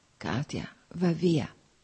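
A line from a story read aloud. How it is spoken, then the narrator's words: Whispered again. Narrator (Italian): sussurrò ancora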